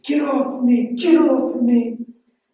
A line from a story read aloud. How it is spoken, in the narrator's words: he's screaming not good things at his age